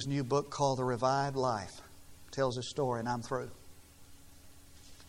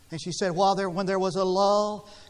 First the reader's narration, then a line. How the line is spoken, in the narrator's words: she shouted down